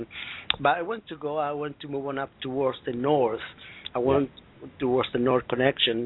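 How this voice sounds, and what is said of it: Strong accent. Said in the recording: “My accent is strong.”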